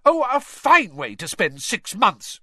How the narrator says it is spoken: she shrieked

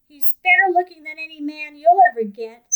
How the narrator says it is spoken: snapped Natty

